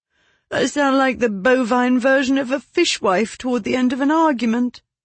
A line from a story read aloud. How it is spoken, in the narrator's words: She moaned